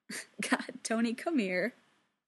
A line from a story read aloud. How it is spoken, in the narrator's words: Steve says, laughing